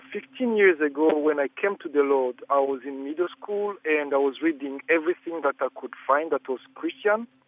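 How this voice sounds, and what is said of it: African-accented English. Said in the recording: “I am African, so I hope you bear with my accent.”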